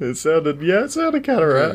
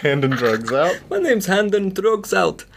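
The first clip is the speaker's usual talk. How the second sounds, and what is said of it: Weird put-on Irish accent. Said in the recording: “That was a weird Irish accent... that was an Irish accent... It sounds like a like a Dutch Irishman or something.”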